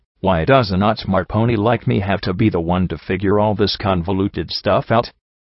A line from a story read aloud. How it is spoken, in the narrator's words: I sighed